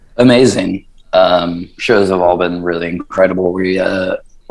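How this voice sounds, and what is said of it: Rough, worn-out voice. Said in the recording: “my voice is a bit fried today”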